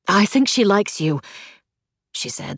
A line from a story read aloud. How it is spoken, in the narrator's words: the words blurting out